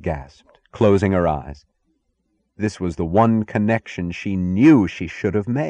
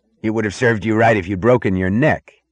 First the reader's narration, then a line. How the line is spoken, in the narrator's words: the muscular man snapped at her with the anger of concern, almost of affection